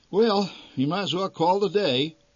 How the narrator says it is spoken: announced the old man

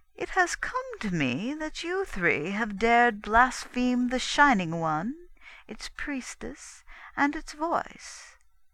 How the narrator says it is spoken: went on Yolara smoothly

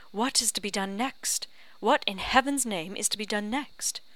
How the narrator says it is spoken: cried Charles

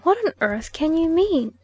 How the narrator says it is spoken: at length exclaimed

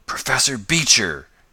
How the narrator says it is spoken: gasped the young inventor

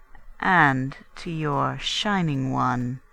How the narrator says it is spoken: she added slowly

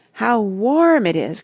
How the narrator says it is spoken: cried Randy

